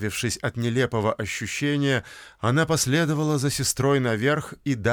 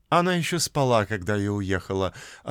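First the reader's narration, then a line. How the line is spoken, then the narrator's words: Plain. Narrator (Russian): ответила Фрэнки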